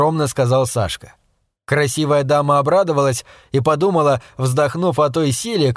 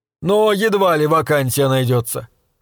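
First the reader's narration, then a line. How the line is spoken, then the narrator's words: Dry, elderly man. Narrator (Russian): сухо заметил пожилой господин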